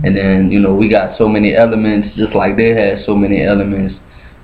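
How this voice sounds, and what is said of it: Northern US accent. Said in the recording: “you have a northern accent.”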